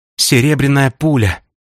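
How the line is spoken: Breathy exhale. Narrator (Russian): выдохнула

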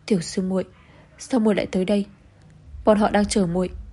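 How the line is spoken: Tearful choked voice. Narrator (Vietnamese): nữ tử kia mở to mắt đẫm lệ nhìn nàng nghẹn ngào lên tiếng

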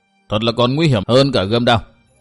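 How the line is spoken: Sighing mutter. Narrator (Vietnamese): thở một hơi dài lẩm bẩm

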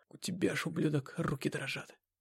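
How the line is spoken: Hoarse. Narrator (Russian): прихрипел я

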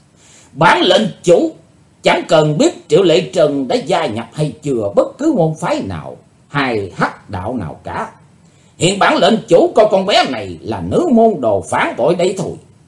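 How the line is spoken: Burst of loud laughter. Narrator (Vietnamese): Hải Âu Quái Khách trố lên một tràng cười lớn

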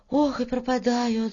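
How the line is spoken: Sighing. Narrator (Russian): вздохнула Варя

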